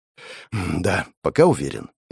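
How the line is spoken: Sighing. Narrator (Russian): я вздохнул

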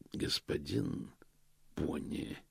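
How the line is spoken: Quiet. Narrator (Russian): тихо сказал Позолот

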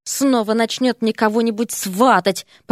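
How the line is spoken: Muttered. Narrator (Russian): пробормотал Эрик

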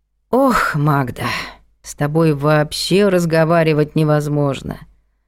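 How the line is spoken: Sigh. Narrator (Russian): вздохнула Антонина Матвеевна

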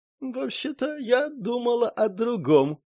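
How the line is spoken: Giggling close whisper. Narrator (Russian): хихикнула Лиун, обжигая его щеку горячим дыханием

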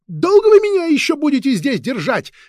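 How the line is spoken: Harsh, shrill shout. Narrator (Russian): резким, визгливым голосом закричала она

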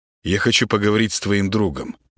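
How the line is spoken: Plain. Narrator (Russian): ответил Гена

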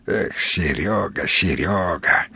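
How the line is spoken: Sigh. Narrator (Russian): вздохнул Волк

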